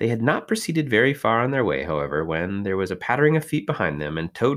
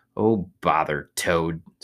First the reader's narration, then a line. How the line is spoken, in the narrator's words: said the rat savagely